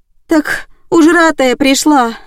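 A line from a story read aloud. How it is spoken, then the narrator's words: Sigh. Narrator (Russian): вздохнула я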